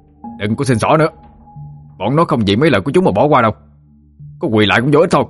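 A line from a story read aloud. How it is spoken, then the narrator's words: Shouting in face. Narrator (Vietnamese): Thụy nói như quát vô mặt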